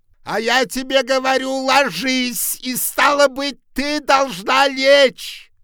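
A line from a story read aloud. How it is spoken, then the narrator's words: Angry shout. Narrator (Russian): закричал он озлобленно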